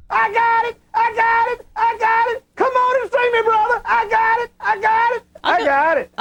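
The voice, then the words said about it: Squawking chicken-like character voice. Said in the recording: “He sure sounds like he's doing a chicken voice.”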